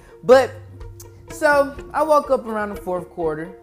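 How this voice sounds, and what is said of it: Usual voice. Nothing is said of it.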